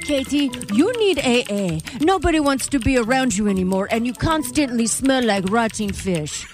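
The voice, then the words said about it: Strange put-on Dracula-like accent. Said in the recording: “I have no idea what that accent was. ... He almost sounds like a Dracula or something.”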